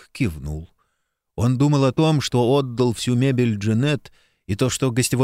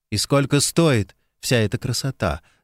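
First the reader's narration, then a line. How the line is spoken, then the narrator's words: Plain. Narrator (Russian): спросил он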